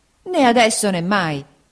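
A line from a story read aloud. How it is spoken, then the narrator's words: Exclaimed. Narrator (Italian): esclamò Peggotty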